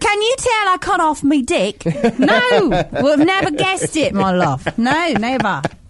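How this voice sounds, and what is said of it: Put-on British accent. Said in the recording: “British chicks ... I can't really do a British accent.”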